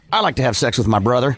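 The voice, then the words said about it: Put-on Texas accent. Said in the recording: “Here's my Texas accent.”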